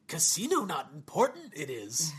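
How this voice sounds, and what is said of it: Poor Yoda-style character voice. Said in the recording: “my Yoda impression. ... except for me. I suck.”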